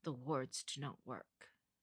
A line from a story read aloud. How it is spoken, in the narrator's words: finally whispered